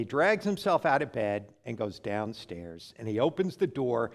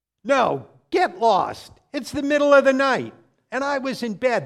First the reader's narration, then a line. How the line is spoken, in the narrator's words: screams